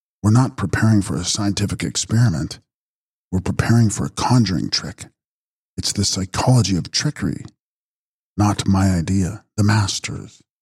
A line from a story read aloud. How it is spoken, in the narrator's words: whispered Cyril